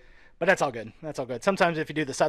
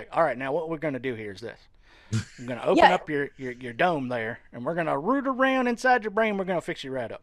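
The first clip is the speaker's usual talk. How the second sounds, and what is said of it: Put-on Southern accent. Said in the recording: “Southern accent”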